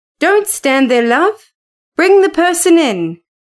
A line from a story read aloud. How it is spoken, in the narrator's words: he called out quickly